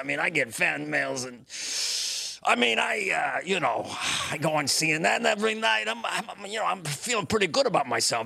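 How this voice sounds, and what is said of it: Inaccurate impression of Anthony Fauci. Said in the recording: “It's not my most accurate impression ... your impression does not have to sound like the person”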